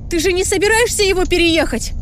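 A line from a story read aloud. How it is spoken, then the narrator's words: Shouting. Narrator (Russian): закричала я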